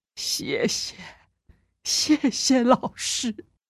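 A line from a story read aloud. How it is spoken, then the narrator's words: Tearful student murmuring. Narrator (Chinese): 学生立刻红了眼眶，口中喃喃地说着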